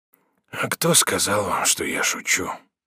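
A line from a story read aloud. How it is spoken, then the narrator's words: Dying whisper, deep sigh. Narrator (Russian): прошептал умирающий с глубоким вздохом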